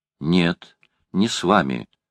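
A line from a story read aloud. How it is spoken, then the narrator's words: Boy, decisive tone. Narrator (Russian): решительным тоном заявил мальчик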